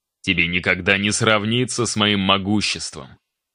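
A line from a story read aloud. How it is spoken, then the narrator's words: Growl. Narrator (Russian): прорычал он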